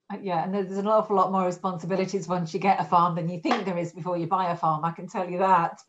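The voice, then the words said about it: Northern English Yorkshire accent. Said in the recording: “I'm my accent, for some of you might recognise ... I'm actually English. And I'm north of England. I'm a Yorkshire lass”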